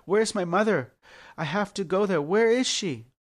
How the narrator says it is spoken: Anxious to see his mother, frantically cried

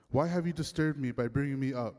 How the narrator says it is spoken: Samuel asked Saul

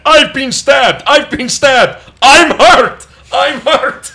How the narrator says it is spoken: screaming over and over again

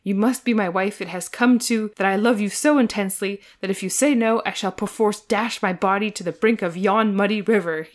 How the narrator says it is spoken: he panted wildly

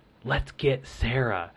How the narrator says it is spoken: he like whispered to me, and he was like

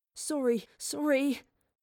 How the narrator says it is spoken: whimpered

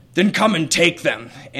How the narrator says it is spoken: The Gary snorts and says

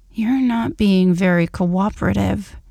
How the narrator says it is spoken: he growled between kisses

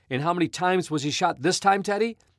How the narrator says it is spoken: yelled Horace Gladstone

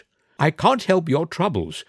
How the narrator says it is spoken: said Motty firmly

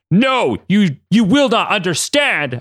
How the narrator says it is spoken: Apocalypse cried out

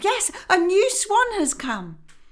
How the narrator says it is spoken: The others also cried out

